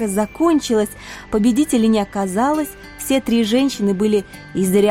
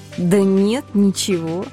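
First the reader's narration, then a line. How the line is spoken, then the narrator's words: Drawling, slightly taken aback. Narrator (Russian): слегка опешив от услышанного, протянула я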